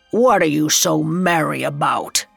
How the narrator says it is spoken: he growled

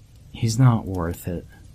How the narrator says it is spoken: he said quietly

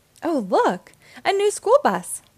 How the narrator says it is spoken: exclaimed

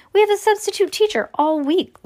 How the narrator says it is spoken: Lucy exclaimed

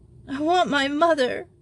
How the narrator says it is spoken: sobbed Simone in French

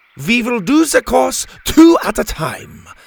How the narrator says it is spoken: Helga shouted over the excitement

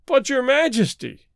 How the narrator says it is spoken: he wailed

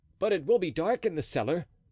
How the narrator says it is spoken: cried Blaisois with evident admiration

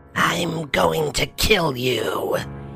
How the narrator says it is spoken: hissed

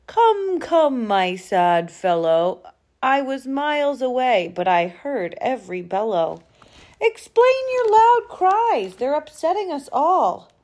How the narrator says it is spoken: A big voice then called out

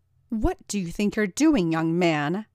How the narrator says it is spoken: Nancy bellowed at Roger

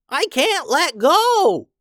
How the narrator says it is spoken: cried Bob

